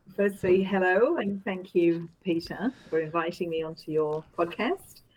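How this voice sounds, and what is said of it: Strange non-local accent. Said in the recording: “you have this strange accent, so I presume you're from somewhere else”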